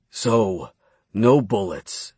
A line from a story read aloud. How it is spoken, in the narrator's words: Edgar growled